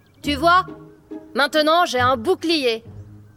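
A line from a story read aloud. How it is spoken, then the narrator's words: Dragon sneering harder. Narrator (French): Le dragon ricana de plus belle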